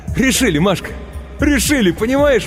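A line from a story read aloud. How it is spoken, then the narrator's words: Ecstatic shouting. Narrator (Russian): восторженно кричал он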